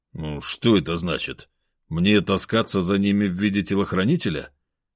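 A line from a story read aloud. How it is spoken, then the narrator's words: Displeased grumble. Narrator (Russian): недовольно пробурчал я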